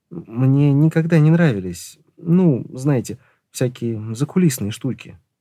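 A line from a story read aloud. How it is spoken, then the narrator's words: Muttering. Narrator (Russian): пробормотал он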